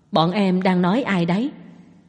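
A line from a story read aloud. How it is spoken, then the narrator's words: Quiet question. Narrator (Vietnamese): Tống Duệ nhỏ giọng hỏi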